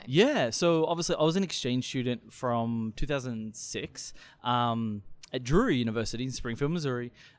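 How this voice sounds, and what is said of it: Australian accent. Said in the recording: “your accent. You're from Australia.”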